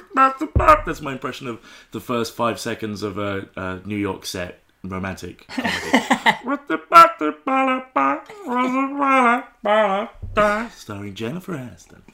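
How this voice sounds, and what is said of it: Croaky voice. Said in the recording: “My voice is all croaky at the moment”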